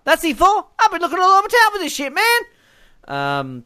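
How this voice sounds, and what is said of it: Poor impression of another person's voice. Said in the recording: “That's a very bad Chris Tucker impersonation.”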